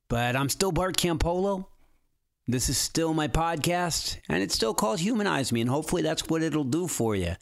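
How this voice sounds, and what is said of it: Rough, unwell-sounding voice. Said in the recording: “my voice sounds horrible ... my voice is kind of horrible right now”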